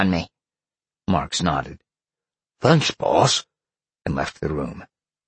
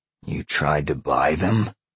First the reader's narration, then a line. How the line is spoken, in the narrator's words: Sean growled